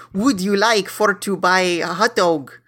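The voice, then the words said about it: Vague Eastern European put-on accent. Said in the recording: “he was speaking in this accent. Sometimes it sounded kind of Russian. Sometimes it sounded sort of sort of Hebrew. Sometimes uh, Polish.”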